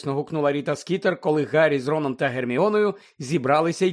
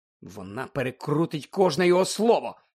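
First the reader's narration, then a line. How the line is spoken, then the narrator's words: Whisper. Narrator (Ukrainian): прошепотів Гаррі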